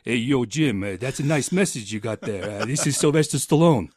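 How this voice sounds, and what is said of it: Poor impression of a celebrity's voice. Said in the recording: “that's probably a terrible impersonation ... all celebrity voices impersonated”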